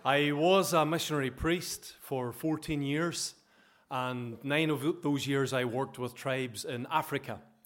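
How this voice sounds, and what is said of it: Northern Irish accent. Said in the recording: “I come from Ballaghy in County Derry. So hopefully you understand my accent okay.”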